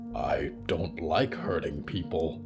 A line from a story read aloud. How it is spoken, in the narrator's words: Mort said quietly